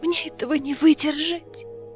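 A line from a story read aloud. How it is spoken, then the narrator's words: Whisper. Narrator (Russian): прошептала Неста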